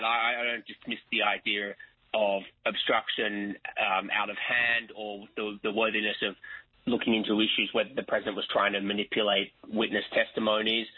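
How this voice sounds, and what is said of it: Non-American accent. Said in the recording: “especially with my accent”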